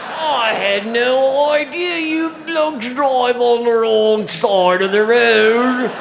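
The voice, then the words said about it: Put-on British accent. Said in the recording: “can you speak with a British accent? ... your accent is so good?”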